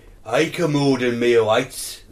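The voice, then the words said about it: Welsh man with a cold. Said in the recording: “can you read it out like a Welsh bloke with a cold? I'll just do my Rod Gilbert impression.”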